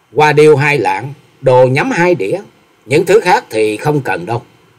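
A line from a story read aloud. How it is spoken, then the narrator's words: Smiling. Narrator (Vietnamese): Bạch y thiếu nữ mỉm cười nói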